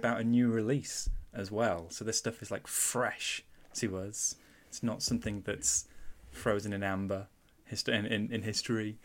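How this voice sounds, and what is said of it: Mancunian English accent. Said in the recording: “I've got a Mancunian accent ... a little twang”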